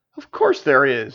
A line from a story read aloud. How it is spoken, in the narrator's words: laughed